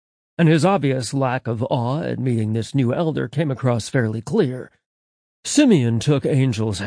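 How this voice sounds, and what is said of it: Usual voice. Nothing is said of it.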